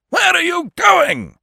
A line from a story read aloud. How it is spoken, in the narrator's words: roared